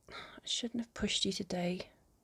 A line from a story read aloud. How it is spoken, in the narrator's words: she mumbles